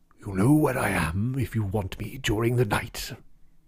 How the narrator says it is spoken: When he bade good night to Parkins, he murmured in a gruff undertone

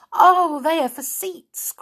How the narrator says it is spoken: cried Silky

